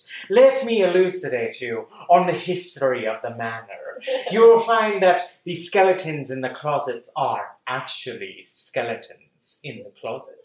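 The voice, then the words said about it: Erudite, warm, professorial imitated voice. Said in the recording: “very erudite... very warm, very inviting professorial feel to it... very good impression of Vincent Price”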